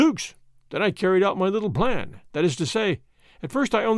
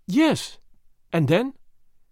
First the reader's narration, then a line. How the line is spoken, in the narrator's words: she asked